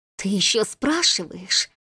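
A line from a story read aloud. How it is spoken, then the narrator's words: Hoarse coughing voice, woman. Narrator (Russian): Хрипло прокашляла его собеседница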